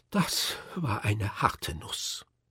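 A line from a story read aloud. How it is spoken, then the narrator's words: Faint sigh. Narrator (German): halb ohnmächtig seufzte er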